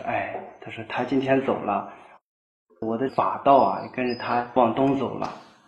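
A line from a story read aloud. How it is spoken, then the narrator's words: Sighing. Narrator (Chinese): 汾阳善昭就叹息，他说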